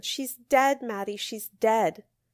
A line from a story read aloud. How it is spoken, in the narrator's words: screamed